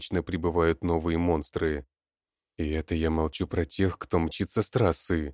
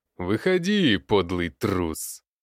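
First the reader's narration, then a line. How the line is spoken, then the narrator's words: Mocking shout. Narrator (Russian): Насмешливым тоном кричит Одноглазый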